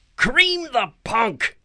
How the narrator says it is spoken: Clarice screamed

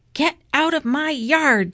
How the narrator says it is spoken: shouted Eugenia

